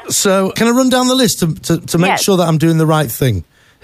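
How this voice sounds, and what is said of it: Foreign, non-local accent. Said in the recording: “I'm sure you can hear from my voice that I'm not from around these parts”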